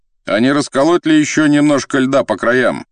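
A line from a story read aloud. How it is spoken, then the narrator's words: Hunter shouting. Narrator (Russian): крикнул охотник лодочнику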